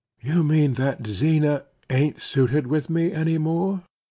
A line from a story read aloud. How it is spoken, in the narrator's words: she faltered